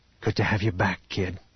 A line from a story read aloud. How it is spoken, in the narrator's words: Han whispered